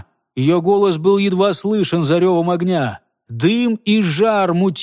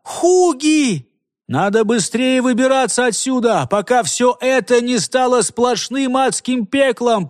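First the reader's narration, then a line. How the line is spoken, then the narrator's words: Shouting right into ear. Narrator (Russian): прокричал Карл прямо в ухо Хольгеру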